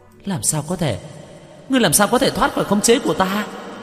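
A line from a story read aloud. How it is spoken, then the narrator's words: Terrified loud cry. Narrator (Vietnamese): Nữ quỷ khuôn mặt khiếp sợ, cao giọng la lên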